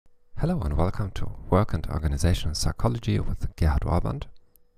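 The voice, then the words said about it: English spoken with German accent. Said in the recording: “in English with a German accent”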